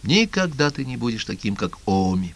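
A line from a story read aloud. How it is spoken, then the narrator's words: Revelatory whisper. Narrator (Russian): Голосом божественного откровения она шептала мне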